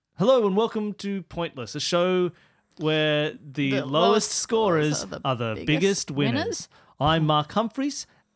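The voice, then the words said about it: Television announcer voice. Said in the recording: “in your best television announcer voice.”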